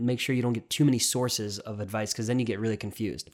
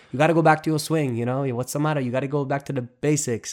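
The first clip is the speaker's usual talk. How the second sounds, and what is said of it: Put-on Italian-accented voice. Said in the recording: “in my Italian voice ... You're Italian Goomba.”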